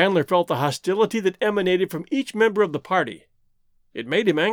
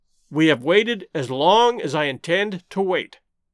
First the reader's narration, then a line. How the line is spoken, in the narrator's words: he said roughly